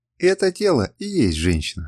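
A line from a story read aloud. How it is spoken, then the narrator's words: Laughing to herself. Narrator (Russian): сказала себе и рассмеялась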